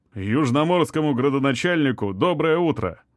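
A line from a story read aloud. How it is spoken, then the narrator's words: Cheerful reply. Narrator (Russian): бодро ответил собеседник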